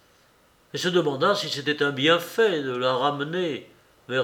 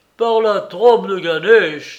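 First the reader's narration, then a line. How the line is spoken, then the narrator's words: Student exclaiming. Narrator (French): s'écria l'élève du brame d'Éléphanta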